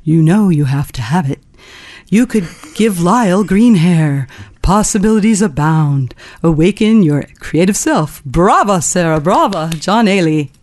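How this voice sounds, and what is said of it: Imitates another person's voice. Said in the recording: “Let me see if I can imitate you... that was a wonderful imitation.”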